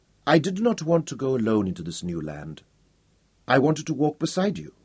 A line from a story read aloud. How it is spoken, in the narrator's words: said softly